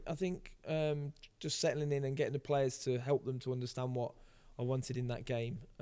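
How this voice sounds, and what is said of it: Hoarse, strained voice. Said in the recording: “probably why I'm losing my voice”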